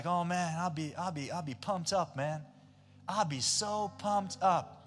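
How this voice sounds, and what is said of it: Put-on American accent. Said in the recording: “Just work with me, American accent.”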